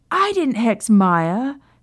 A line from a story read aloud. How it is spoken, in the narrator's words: Sirius shouted